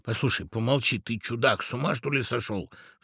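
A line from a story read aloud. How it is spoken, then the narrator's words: Frightened whispering, birds. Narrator (Russian): В страхе зашептали птицы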